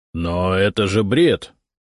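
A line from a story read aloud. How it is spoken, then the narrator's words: Irritated interruption. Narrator (Russian): раздраженно перебил меня Зотов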